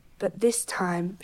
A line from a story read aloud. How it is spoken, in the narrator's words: muttered